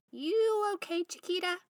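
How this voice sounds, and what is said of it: Tiny squeaky character voice. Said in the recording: “A tiny, squeaky voice”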